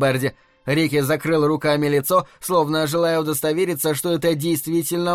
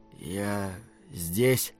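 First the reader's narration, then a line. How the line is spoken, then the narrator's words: Quiet. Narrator (Russian): тихо произнес Рики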